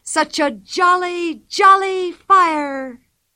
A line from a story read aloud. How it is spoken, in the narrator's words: she cried loudly